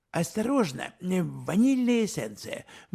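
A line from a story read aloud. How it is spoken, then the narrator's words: Sudden exclamation. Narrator (Russian): вдруг воскликнул он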